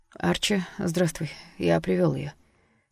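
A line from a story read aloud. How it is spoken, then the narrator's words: Quiet, doctor. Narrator (Russian): тихо сказал доктор Синглтон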